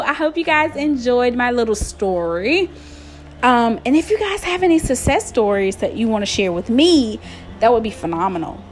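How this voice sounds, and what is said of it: American country accent. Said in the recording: “my country accent”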